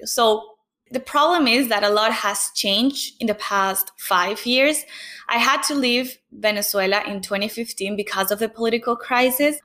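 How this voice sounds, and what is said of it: Speaks with a noticeable foreign accent. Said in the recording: “Every time someone senses my accent or they like they can feel my accent”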